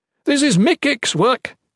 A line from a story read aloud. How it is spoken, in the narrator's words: yelled